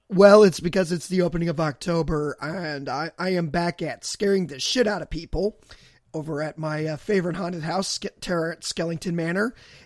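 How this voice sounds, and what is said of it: Rough, damaged voice. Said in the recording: “with the fucked up voice ... the sexy dulcet tones coming from your throat right now”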